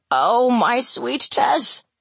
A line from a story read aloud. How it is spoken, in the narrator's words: he cries